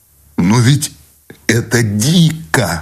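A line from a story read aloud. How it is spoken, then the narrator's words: Exclamation. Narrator (Russian): вскрикнул Сущеня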